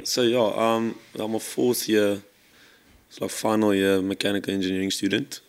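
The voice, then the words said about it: Hoarse, raspy voice. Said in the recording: “Very sore throat this morning, so excuse my voice ... bit of a rasper ... it's like turbocharged”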